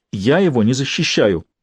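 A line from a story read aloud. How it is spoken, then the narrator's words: Exclamation. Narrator (Russian): воскликнул Джинкс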